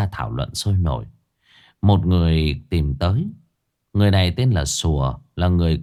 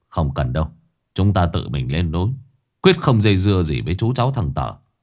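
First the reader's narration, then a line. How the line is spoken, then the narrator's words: Cold speech. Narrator (Vietnamese): Sử lạnh lùng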